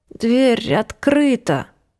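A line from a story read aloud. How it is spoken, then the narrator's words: Moaning woman. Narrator (Russian): простонала она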